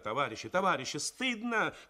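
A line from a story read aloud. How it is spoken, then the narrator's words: Shouting. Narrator (Russian): кричала Тоня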